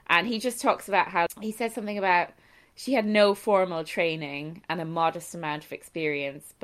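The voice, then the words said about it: American-sounding accent. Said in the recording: “it's a lot of American accent today”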